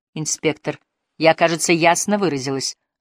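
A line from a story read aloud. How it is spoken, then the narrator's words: Sharp curt retort. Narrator (Russian): резко бросила сестра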